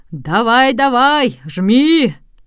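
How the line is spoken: Crowd shouting at full strength. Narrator (Russian): А пассажиры и туристы кричали ему, что было мочи

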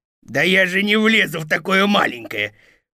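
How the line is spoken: Growling. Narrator (Russian): прорычал волк

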